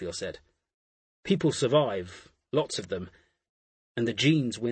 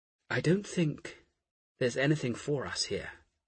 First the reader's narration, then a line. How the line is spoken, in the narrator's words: Asher called softly